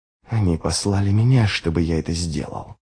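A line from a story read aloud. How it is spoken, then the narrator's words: Hissing. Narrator (Russian): прошипел Ярви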